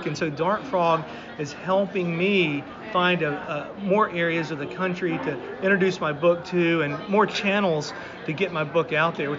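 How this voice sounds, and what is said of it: Southern American accent. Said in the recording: “I'm a Southern guy, if you can't tell from my voice.”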